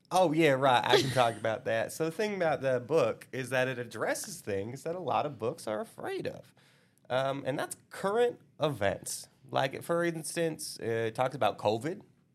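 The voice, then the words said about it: Attempted Southern accent. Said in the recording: “Southern accent. ... going to talk in his attempt at a Southern accent.”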